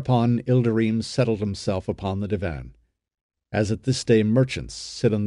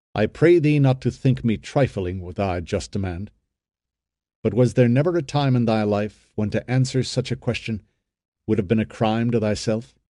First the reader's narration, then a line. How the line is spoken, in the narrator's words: said Ben-Hur, calmly